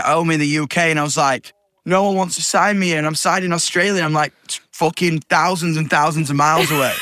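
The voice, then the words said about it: Yorkshire accent. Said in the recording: “I'm from Yorkshire too... my accent”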